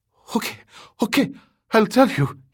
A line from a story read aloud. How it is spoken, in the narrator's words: gasped